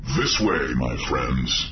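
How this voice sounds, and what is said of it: Imitated down-on-his-luck techno-lord voice. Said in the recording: “trying to give his best impression of a down-on-his-luck Arcanian techno-lord.”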